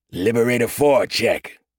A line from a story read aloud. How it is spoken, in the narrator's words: Corporal Dane said, his voice like gravel